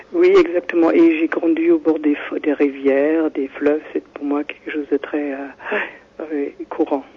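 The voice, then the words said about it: Foreign Nordic accent in French. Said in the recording (French): “J'ai un accent, oui. ... Mais c'est pas belge, c'est un autre accent. ... c'est un pays nordique”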